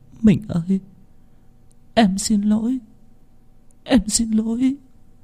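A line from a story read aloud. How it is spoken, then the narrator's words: Tearful whimpering. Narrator (Vietnamese): Minh Liên mếu máo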